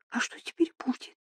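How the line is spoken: Whisper. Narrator (Russian): прошептала Эмили

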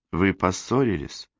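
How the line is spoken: Timid question. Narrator (Russian): робко спросила Розалинда

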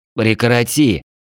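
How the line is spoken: Quiet hoarse dry voice. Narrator (Russian): В голосе пересохло, отчего голос стал тихим и хриплым

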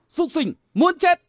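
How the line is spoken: Shouting. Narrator (Vietnamese): Vừa quát

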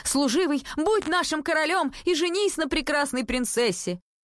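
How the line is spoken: Crowd shouting. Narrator (Russian): весь народ закричал

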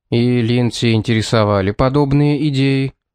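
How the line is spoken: Plain. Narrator (Russian): спросил он

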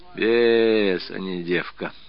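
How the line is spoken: Contented purr. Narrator (Russian): как-то промурлыкал Савелий, сладко закрывая глаза

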